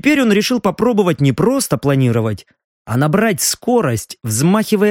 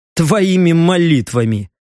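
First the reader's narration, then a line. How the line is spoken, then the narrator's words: Wry snort. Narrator (Russian): хмыкнул Леха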